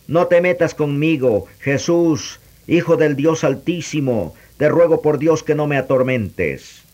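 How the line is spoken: Kneeling, shouting. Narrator (Spanish): poniéndose de rodillas, dijo a gritos

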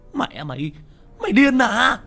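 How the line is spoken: Loud shout. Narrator (Vietnamese): đồng bọn của hắn đang nằm ngửa trên mặt đất ngay trước mặt hét lớn

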